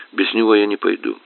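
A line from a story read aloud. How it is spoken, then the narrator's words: Calm and firm. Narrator (Russian): неожиданно спокойно и твердо ответила Анна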